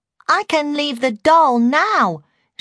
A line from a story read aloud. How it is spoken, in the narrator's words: she exclaimed